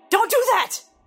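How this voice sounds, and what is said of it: Raised, shouting voice. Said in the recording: “raise my voice.”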